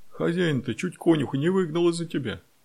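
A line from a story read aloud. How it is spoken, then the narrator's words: Laughing while telling. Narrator (Russian): смеясь, рассказывал Петька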